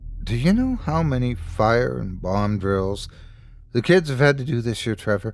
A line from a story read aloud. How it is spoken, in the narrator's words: she asked quietly